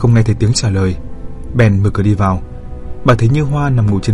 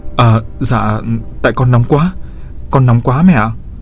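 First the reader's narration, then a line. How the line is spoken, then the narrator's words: Flustered just-woken stammer. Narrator (Vietnamese): Cô nghe gọi thì hoảng hốt choàng thức dậy, vội vò đầu lắp bắp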